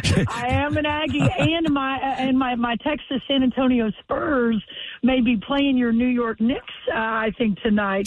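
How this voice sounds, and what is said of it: Texas accent. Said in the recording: “listen to that Texas accent”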